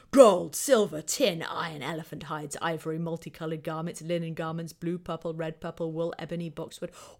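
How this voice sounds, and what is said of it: Grand, regal kingly voice. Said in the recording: “my Mesopotamian kingly impersonation,”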